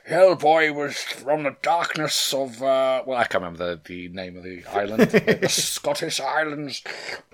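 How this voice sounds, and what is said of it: Imitates another person's voice. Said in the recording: “That was my Elephant Man impression. It was very shit, wasn't it?”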